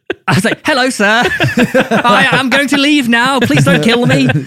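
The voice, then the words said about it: Exaggerated British accent. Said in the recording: “did you just make your accent sound more British?”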